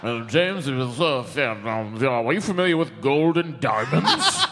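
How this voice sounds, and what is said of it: Impression of another person. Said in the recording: “Who's that an impression of? ... Frank.”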